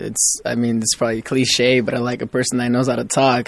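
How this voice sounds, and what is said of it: Speaks with a noticeable accent. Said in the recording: “accent.”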